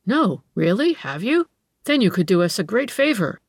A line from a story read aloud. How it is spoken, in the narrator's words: exclaimed Franz in apparent eagerness